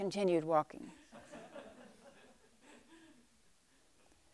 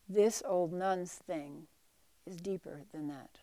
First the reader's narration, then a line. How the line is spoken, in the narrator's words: Eishun calmly said